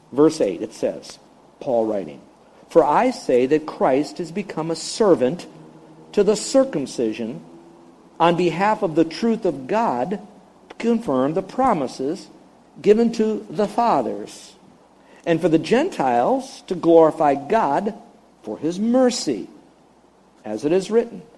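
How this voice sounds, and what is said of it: Slow, deliberate reading. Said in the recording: “read it slowly”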